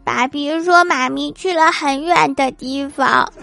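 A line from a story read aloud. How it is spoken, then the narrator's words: Crying. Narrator (Chinese): 他就哭了，说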